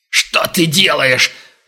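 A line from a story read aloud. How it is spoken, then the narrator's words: Furious growl. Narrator (Russian): в ярости прорычал Глеб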